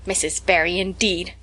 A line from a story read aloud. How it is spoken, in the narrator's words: snapped Marilla